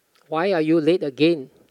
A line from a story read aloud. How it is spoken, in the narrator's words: asked Chun Huat